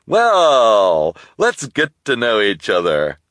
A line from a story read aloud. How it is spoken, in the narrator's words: the bearded man said cheerfully